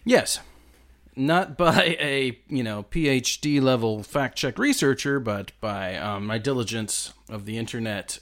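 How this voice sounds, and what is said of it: American accent. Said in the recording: “he's got an American accent”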